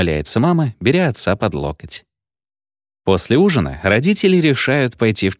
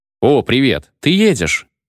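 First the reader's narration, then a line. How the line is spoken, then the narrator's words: Cheerful question. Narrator (Russian): радостно спрашивает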